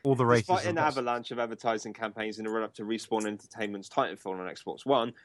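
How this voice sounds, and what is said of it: Usual voice. Nothing is said of it.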